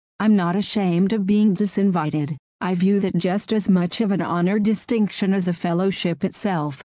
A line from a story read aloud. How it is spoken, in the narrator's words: Manning said